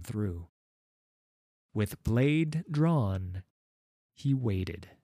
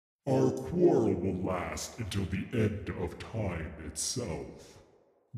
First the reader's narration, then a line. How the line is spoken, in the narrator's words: growled Ledros